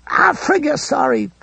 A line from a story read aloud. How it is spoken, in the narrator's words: Pedersen cried